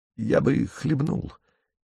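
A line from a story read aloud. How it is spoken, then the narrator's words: Quiet. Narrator (Russian): тихонько говорит человек из виллы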